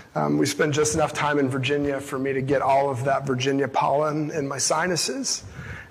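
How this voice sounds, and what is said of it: Strained, hoarse voice. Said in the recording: “my voice is broken because of my allergies ... my voice is still on the struggle bus today”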